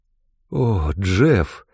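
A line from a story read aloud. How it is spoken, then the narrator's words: Tender. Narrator (Russian): произнесла нежно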